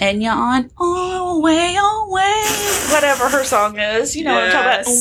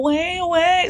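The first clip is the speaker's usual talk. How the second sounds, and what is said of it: Imitates a singer's voice. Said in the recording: “your Enya impersonation”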